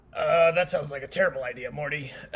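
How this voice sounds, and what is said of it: Bad Rick impression. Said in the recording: “the first bad Rick impression”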